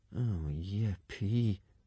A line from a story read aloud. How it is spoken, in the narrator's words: murmured Hiccup